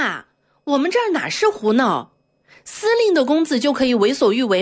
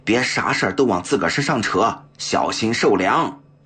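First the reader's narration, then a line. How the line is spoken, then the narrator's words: Low voice, adjutant. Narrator (Chinese): 副官 低声对他说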